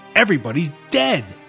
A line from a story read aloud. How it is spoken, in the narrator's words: Max spat